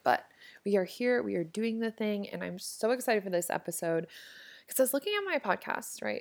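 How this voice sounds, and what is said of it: Scratchy throat, slightly hoarse voice. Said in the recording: “my throat is kind of scratchy, so if I sound super weird, that is why”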